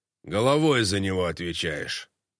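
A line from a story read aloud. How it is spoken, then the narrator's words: Menacing. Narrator (Russian): Староста грозно произнес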